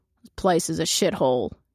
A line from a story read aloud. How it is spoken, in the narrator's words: he growls